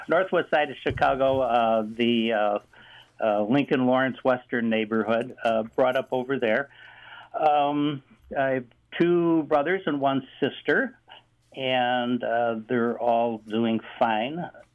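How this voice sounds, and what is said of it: Chicago accent. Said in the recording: “you could probably tell from my Chicago accent that I am a Chicago guy by birth”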